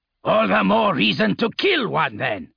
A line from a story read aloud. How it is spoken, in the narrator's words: Arke barked